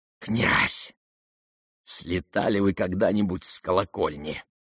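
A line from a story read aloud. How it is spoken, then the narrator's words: Sudden whisper. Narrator (Russian): прошептал ему вдруг Ипполит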